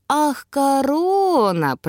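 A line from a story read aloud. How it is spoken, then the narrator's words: Drawn out. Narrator (Russian): протянул Илай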